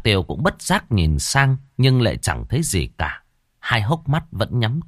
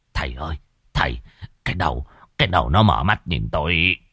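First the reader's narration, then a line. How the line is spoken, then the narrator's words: Terrified stammer. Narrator (Vietnamese): Bá Khôi kinh hãi lắp bắp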